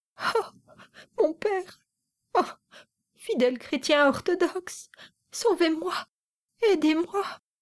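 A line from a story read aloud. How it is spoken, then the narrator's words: Sobbing woman pleading. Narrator (French): disait-elle à travers ses sanglots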